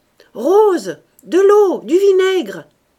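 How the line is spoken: Urgent shout. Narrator (French): cria l'abbé Faujas

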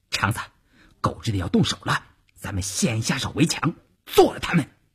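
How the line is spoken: Low voice. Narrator (Chinese): 邵月低声对前面的晋中人说

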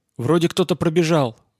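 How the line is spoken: Exclaiming. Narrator (Russian): воскликнул Юлий

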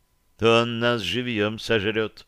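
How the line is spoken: Gloomy confirmation. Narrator (Russian): мрачно подтвердила Агонесса, видимо, тоже не горя желанием вернуться к отцу Касперу с поражением

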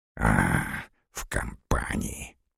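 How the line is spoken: Hiss. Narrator (Russian): прошипел Горданов

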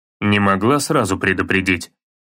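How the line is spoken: Slightly irritated question. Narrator (Russian): чуть раздраженно спросил Кратос

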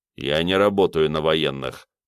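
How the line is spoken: Gruff mumble. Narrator (Russian): пробурчал бородатый

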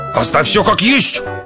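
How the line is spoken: Roar. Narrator (Russian): взревел док

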